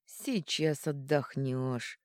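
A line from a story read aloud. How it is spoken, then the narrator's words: Through gritted teeth. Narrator (Russian): процедил крон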